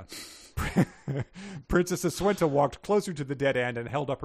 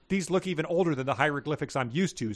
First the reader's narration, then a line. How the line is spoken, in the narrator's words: said Princess Aswenta